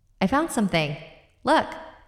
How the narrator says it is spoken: Allie yelled out

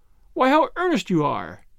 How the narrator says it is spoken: laughed

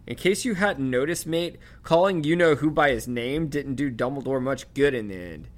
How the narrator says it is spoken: Ron snapped back

